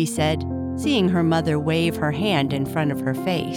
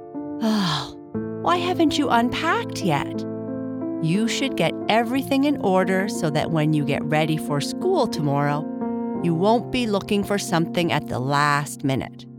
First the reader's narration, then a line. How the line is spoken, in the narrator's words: Sighing, her mother said